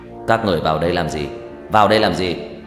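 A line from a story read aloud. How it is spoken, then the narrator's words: Deep booming voice. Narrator (Vietnamese): Một giọng nói ồm ồm vang lên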